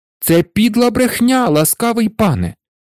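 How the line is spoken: Exclaiming in protest. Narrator (Ukrainian): вигукнув Петр, вислухавши наклепницьке звинувачення

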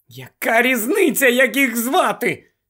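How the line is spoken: Slightly hysterical exclamation. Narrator (Ukrainian): дещо істерично вигукнула Герміона

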